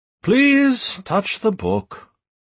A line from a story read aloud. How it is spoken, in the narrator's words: he uttered in a distracted tone